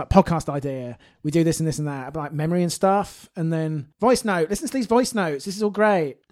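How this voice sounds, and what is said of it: Imitates another person's voice. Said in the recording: “your impression of her is amazing”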